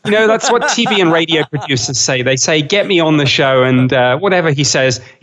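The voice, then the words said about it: British accent. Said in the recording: “my British accent ... his British accent will make him sound credible”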